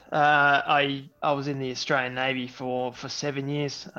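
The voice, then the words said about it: Australian accent. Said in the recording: “if you can hear from the accent, uh, I'm Australian by birth”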